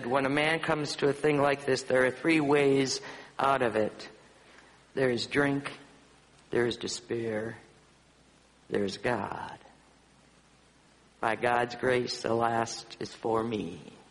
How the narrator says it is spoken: he said

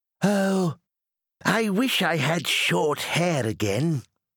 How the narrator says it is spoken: sighed Cuthbert

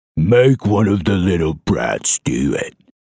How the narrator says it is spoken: grunted John

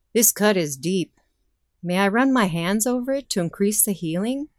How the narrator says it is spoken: asked

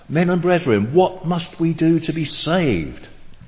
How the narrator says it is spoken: They cried out

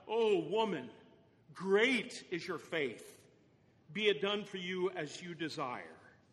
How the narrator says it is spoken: Jesus finally, at last, cried out

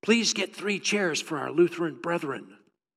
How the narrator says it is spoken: The priest whispered to the altar boy

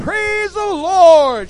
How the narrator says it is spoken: cried out

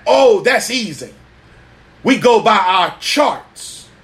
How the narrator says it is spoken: The captain snapped back

